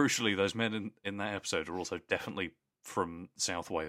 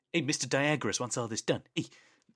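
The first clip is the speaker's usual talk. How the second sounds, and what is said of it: Deliberately bad put-on New York accent. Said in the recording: “those New Yorkers being like ... doing bad accents as well, so it's fine. I'm doing bad versions of their bad accents.”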